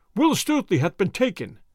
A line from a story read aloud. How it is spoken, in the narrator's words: cried they